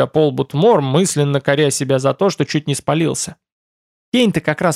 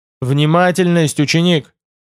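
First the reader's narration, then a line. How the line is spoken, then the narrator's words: Barked. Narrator (Russian): рявкнул Байда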